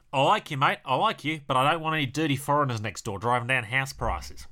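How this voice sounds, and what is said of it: Put-on Australian accent. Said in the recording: “Sorry, I should do that in Australian accent, shouldn't I?”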